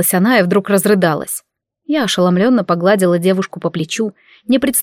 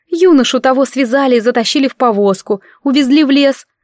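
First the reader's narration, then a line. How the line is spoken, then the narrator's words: Sobbing speech. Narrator (Russian): говорила она, всхлипывая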